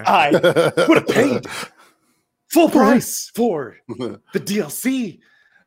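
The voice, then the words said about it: Imitates another person's voice. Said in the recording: “I became Will and Shatner there ... That was a great Shatner impression.”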